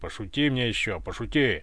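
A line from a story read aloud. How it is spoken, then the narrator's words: Displeased growl. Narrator (Russian): рыкнул недовольный Иван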